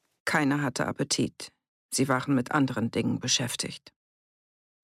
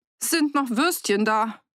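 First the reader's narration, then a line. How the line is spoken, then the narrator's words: Slightly desperate call. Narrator (German): rief der Wirt, und es klang schon ein bisschen verzweifelt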